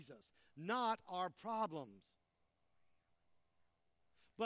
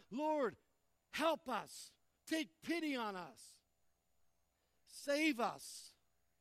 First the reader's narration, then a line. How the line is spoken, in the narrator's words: This father cried out